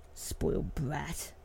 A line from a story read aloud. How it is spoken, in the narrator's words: he muttered under his breath